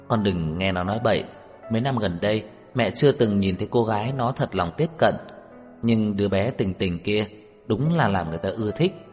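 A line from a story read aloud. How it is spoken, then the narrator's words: Smiling woman. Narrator (Vietnamese): bà mỉm cười nói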